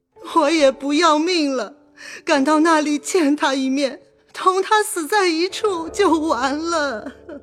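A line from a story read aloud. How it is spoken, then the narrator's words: Crying. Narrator (Chinese): 薛姨妈又哭道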